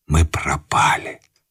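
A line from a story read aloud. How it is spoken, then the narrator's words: Young man whispering. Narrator (Russian): прошептал молодой человек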